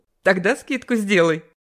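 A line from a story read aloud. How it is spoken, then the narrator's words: Laughing. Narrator (Russian): засмеялась Вера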